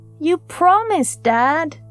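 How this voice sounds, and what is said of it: Whiny pleading boy's voice. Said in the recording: “He hears the whine in his own voice”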